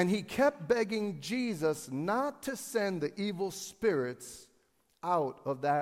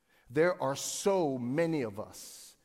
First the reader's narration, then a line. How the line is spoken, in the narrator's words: he says